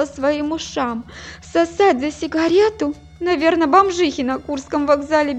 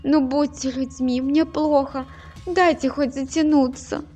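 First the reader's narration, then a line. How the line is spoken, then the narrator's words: Pleading. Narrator (Russian): Я взмолилась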